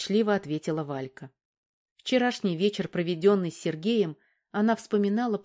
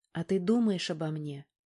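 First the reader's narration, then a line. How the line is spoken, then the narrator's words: Timid, unexpected question. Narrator (Russian): робко и неожиданно для себя спросила Валька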